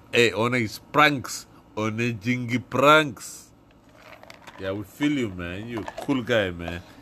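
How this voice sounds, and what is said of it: Put-on accent. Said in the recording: “I got so much spit on the screen of my phone talking in this fucking accent, mate.”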